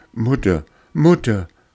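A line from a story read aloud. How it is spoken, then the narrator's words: Feverish boy calling. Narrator (German): rief der Knabe aus seinem Fieber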